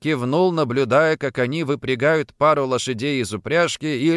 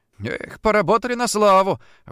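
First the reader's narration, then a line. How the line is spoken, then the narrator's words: Exhaled, breathy. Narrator (Russian): выдохнул Андрей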